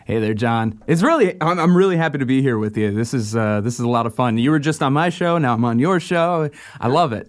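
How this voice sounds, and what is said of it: Polished radio announcer voice. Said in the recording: “that's a radio voice, right? ... That's what I'm supposed to sound like.”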